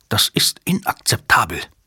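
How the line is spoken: Hissing. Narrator (German): zischte Numataka

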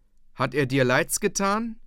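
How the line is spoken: Shouted. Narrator (German): rief

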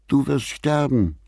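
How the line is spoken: Tearful screaming. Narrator (German): schrie er Alan unter Tränen an

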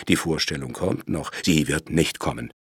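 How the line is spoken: Furious hiss. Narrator (German): zischte Pat mit wutverzerrtem Gesicht

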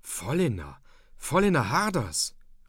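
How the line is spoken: Almost loud call. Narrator (German): rief Hauke fast laut und seufzte dann gleich wieder erleichtert auf

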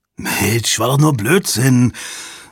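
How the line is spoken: Sigh. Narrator (German): Jabba seufzte

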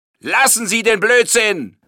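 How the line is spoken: Inspector bellowing. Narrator (German): brüllte der Inspektor

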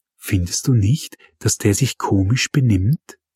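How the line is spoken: Whispered. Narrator (German): flüsterte sie

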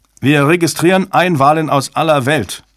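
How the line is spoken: Technician calling out. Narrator (German): rief ein Techniker

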